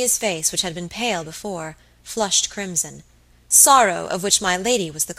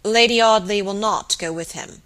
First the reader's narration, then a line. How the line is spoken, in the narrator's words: said Robert gravely